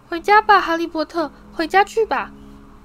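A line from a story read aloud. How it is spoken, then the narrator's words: Shrill squealing elf. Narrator (Chinese): 小精灵哇哇尖叫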